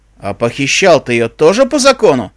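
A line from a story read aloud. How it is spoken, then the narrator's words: Skull barking. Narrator (Russian): рявкнул череп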